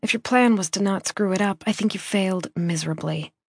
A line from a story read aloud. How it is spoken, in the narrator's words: I muttered to myself